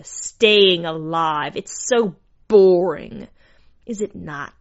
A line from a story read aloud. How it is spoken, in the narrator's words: She spat her words upon the crowd